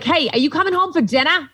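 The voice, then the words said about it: Boston accent imitating mom. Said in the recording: “we're from Boston. So this is the accent.”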